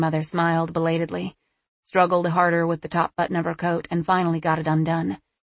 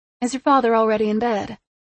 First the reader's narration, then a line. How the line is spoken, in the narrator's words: she asked brightly